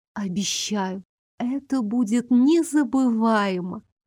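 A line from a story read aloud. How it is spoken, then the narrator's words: Languid whisper. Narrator (Russian): Томно прошептала я Элмеру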